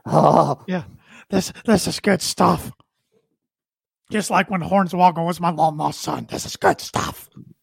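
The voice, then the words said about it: Imitates another person's voice. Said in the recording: “my Vince impression. I can't do it.”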